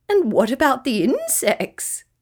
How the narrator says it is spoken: laughed Kookaburra

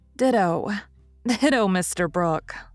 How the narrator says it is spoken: laughed Meg

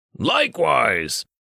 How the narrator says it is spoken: Richter grunted

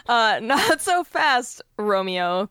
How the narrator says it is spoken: Grace laughed

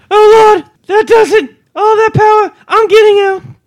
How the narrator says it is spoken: Miss Hodgson's cried

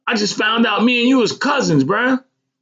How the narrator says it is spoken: screamed

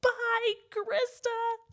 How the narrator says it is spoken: she's yelling

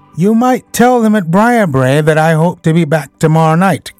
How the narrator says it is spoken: cried Phelps

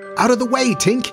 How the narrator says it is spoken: he shouted

